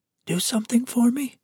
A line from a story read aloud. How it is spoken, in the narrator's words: Her voice was thin and reedy